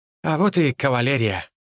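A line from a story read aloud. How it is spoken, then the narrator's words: Snorted. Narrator (Russian): хмыкнул вернувшийся Ли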